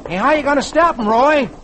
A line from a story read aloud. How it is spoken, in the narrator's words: Tommy shouts